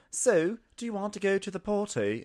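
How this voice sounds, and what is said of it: Terrible fake Australian accent. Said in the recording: “if you're gonna do a fake Australian accent, learn from the masters ... This is how you do it ... learn from our terrible Australian accents”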